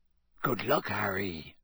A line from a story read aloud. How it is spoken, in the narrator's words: Hagrid whispered